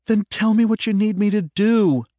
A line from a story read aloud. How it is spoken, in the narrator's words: Lena said with an edge of pleading in her tone